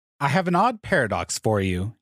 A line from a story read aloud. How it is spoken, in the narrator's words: he said